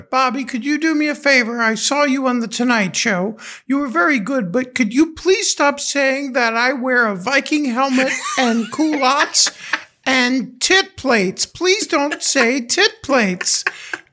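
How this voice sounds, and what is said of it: Imitates another person's voice. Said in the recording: “I'm going to have to do her voice.”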